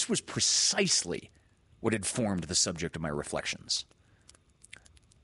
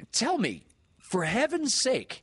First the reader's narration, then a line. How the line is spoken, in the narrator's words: exclaimed